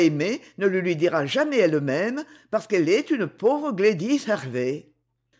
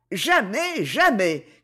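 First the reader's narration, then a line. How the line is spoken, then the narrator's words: Shouting. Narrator (French): criait Christine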